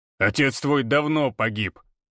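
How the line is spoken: Growling. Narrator (Russian): рыкнул Григор

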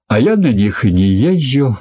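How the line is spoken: Laughing. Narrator (Russian): рассмеялся Самохин

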